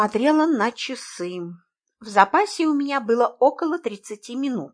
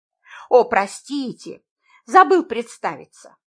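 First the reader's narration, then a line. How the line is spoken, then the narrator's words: Forced laugh. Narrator (Russian): Ненатурально рассмеялся мужчина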